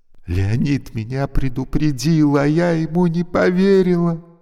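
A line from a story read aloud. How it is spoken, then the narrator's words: Reply breaking into sobs. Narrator (Russian): ответила она и громко зарыдала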